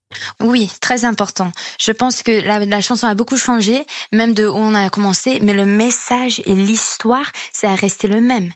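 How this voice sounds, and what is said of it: Slight American accent in French. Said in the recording (French): “On l'entend un petit peu à votre accent, vous êtes franco-américaine, vous avez grandi entre les États-Unis et la France”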